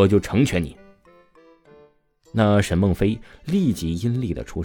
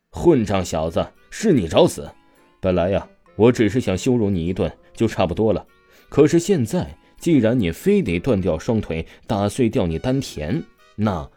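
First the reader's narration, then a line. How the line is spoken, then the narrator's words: Cold sneering. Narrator (Chinese): 王峰冷笑说道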